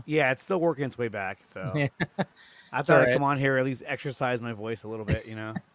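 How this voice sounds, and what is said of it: Slightly raspy, recovering voice. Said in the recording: “your voice is like your still voice is still coming back ... A little raspy, but not too bad.”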